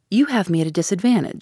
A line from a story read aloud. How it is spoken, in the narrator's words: said in a lighter tone